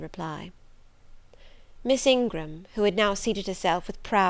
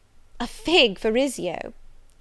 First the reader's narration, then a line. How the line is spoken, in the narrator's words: cried she